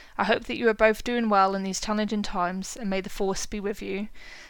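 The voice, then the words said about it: Emotional, choked-up reading voice. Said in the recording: “Sorry, I'm getting a bit emotional now as well.”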